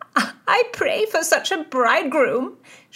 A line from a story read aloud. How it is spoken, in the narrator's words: shrieked Mary Howard